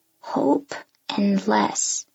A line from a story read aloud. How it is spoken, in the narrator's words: he says quietly